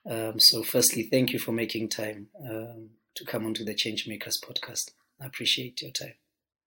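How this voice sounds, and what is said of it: Voice sounds bad, hard to hear. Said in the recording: “Sorry that my voice sounds so bad, man, but I hope you'll be able to hear me ... audible enough and not a bad listening experience”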